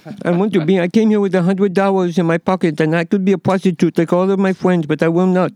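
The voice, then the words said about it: Soft, childlike French-accented voice. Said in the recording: “She had this soft French, vulnerable way ... she sounds like an infant ... She literally talked like this.”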